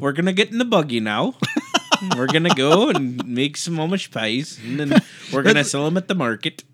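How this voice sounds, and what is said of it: Put-on Amish accent, sounds Irish. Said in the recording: “An Amish accent ... That sounds kind of Irish.”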